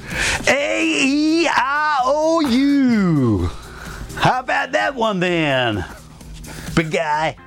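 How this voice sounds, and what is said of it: Angry put-on American accent, Macho Man-like. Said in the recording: “can you do an American accent? ... why is your American accent so angry? Or like, it's like Macho Man Savage.”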